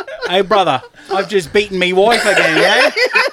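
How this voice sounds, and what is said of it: Put-on Australian accent. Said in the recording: “One of them needs an accent, though. ... Give me an accent. ... Australian. ... He's getting there. He's getting there.”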